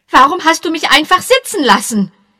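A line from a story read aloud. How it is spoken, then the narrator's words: Angry shouting. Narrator (German): rief zornig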